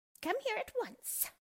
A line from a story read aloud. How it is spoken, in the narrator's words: she shouted at Dorothy